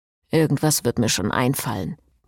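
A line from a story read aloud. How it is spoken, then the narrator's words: Muttering to himself. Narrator (German): murmelte Frederik, mehr zu sich selbst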